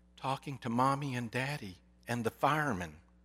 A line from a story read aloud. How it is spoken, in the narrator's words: came the whispered answer